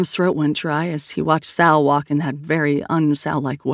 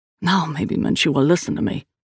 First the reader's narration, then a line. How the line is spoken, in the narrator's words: Liam grumbled